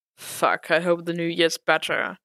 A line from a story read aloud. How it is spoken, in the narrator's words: Frank said with a low chuckle